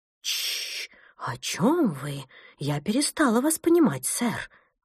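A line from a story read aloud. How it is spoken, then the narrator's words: Agitated speech. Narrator (Russian): Взволнованно произнесла Фрида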